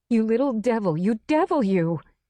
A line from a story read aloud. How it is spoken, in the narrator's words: she shouted